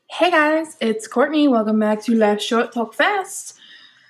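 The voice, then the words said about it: Weird put-on accent. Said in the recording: “I did that in a weird accent”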